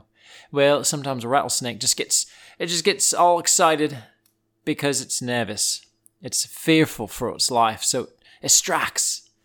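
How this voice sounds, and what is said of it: Drifting into a southern accent. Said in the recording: “my accent's going southern”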